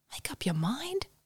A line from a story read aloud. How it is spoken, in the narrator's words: whispered Roy, a little annoyed with his sister's flip-flopping over supplies